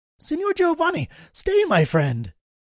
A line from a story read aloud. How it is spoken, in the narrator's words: cried he